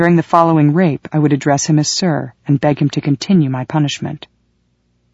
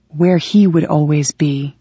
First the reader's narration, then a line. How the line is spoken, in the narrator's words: he breathed into my ear